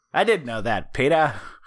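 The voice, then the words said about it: Bad imitation of another person's voice. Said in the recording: “doing a bad Peter Graves impression”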